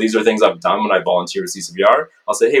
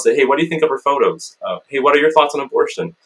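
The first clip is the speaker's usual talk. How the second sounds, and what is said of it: Higher-pitched, softer, vulnerable-sounding voice. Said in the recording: “change the pitch of my voice, make it a little higher”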